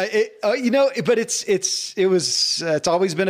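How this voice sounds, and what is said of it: Usual voice. Nothing is said of it.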